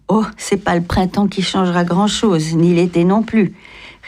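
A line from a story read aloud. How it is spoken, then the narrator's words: Calm young woman. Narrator (French): répondit calmement la jeune fille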